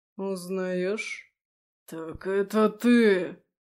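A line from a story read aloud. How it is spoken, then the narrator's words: Hoarse rasp. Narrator (Russian): прохрипел Андаим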